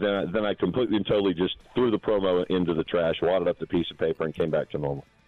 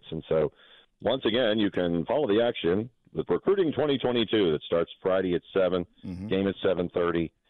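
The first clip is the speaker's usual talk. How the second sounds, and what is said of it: Sports announcer voice. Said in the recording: “Love how you broke into the announcer voice there. ... I tried to go in the announcer voice”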